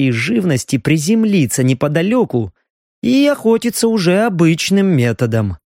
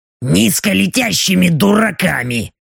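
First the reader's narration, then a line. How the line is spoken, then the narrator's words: Displeased mutter. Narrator (Russian): Недовольно буркнула та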